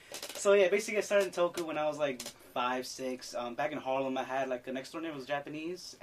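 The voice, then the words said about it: Mexican accent. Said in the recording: “maybe I'm Mexican. You can see from my voice, my accent.”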